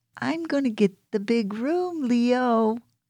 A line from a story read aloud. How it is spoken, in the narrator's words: squealed